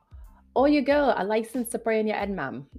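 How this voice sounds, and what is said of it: Attempted Birmingham English accent, poorly done. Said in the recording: “I butchered that so badly. I'm not British ... Is this supposed to be a Birmingham? I think this is a Birmingham accent ... Maybe that's wrong. I'm horrible.”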